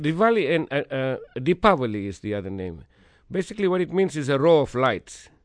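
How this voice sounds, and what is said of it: Accent with mixed-up V and W. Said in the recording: “my V and W's are mixed up. That's why I think it sounds different... It's an accent thing more than anything else.”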